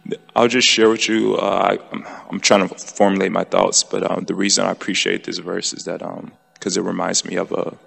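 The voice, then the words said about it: Tired, worn voice. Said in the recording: “my voice is, I'm so sorry... I'm pretty tired.”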